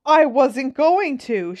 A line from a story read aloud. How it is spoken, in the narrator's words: she shouted